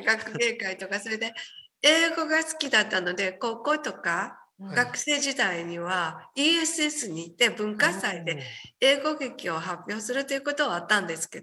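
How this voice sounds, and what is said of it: Japanese with slight English accent. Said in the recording (Japanese): “日本語がねちょっと英語なまりですもんね ... ちょっとね英語かかってますよきっと、発音がね”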